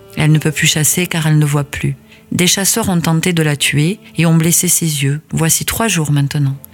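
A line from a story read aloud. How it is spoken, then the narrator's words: Sad animal reply. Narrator (French): répondit tristement le puma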